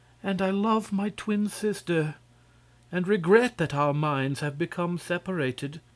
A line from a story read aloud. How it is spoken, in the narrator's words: continued sadly